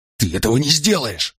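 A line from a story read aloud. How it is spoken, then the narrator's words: Horrified hiss. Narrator (Russian): с ужасом зашипел он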